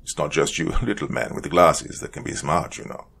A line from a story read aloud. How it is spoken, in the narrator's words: But Simonov appeared to more or less laugh it off, replying